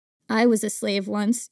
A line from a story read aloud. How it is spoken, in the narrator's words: your mother says softly